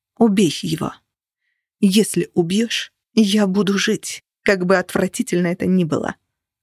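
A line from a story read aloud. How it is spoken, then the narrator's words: Growled. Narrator (Russian): прорычала она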